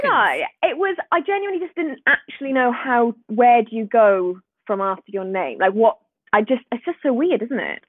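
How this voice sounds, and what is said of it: Subtle Welsh accent. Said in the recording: “I'm from Swansea in Wales. Can you hear the accent? ... definitely hear the twang ... maybe there is a twang there”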